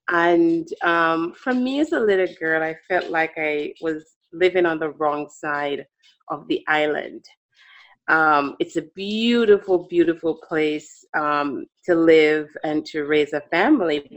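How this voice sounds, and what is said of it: Jamaican accent. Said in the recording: “I do have an accent. I grew up on the beautiful island of Jamaica, the West Indies.”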